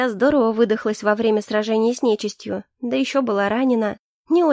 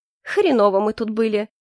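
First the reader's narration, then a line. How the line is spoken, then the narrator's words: Snorting. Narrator (Russian): хмыкнула Агата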